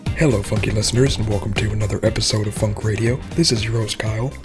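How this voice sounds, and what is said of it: Radio DJ voice. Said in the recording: “my best DJ impression.”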